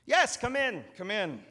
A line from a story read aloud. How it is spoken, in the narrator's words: the steward exclaimed